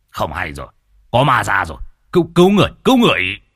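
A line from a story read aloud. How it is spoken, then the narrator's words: Panicked shout. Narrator (Vietnamese): Lão nhị quát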